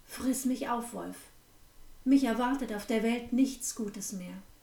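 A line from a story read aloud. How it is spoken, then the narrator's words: Firm steady voice. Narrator (German): sprach sie mit fester Stimme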